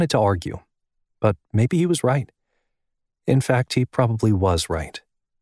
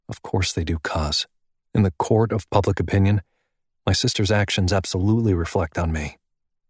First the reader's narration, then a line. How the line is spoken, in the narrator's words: his voice was quiet, even, as he said